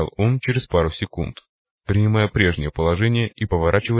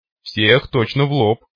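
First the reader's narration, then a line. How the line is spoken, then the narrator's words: Grim. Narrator (Russian): мрачно кивнул тот, что был в бандане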